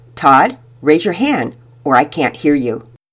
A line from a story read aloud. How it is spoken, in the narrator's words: Richardson, who was always patient and would firmly remind him